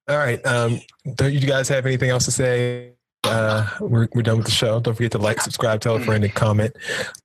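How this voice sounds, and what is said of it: Low, sick, strained voice. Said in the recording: “my voice is just getting lower because I'm very sick and my throat seems like it's just caving in”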